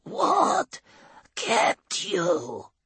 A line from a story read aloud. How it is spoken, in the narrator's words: Clado rasps